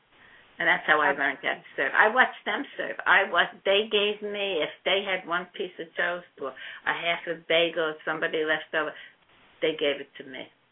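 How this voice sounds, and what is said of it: Slight Brooklyn accent. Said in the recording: “I still have a slight, very slight accent from the Holy Land, Brooklyn.”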